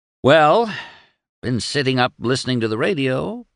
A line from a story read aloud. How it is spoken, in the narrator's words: purred